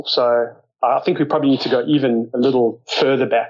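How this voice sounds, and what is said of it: South African accent. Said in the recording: “you can probably tell from my accent, grew up in South Africa.”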